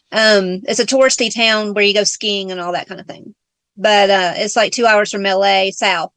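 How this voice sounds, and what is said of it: Southern US accent. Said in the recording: “Southern accent”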